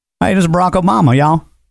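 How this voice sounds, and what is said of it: Deliberately terrible imitation of another's voice. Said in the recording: “really, really bad impressions. Just absolutely terrible impressions... my impression of Barack Obama”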